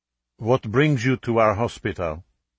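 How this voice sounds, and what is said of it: Belgian accent, sounds French. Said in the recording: “English was excellent, almost as though she taught it, with a Belgian accent that sounded just like French”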